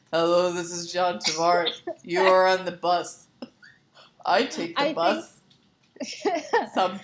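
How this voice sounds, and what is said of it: Imitates another person's voice. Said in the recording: “Do I have to do my impression again?”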